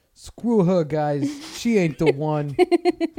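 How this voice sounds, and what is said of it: Put-on Italian accent. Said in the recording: “I need an Italian accent”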